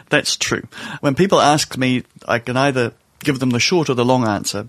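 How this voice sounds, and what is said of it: Accent not from London. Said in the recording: “judging by your accent, are not from London”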